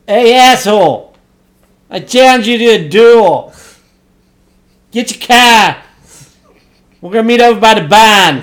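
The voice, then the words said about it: Put-on Boston accent. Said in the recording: “Can you do your Boston accent for this?”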